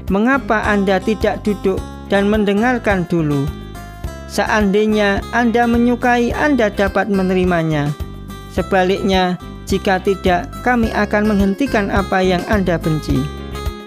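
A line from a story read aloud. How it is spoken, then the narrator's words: Calm answer. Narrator (Indonesian): Mus'ab menjawab dengan tenang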